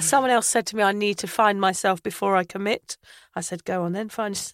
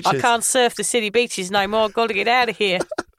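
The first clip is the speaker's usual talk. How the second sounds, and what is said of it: Poor put-on Australian accent. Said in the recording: “My bad accent. That was supposed to be Australian.”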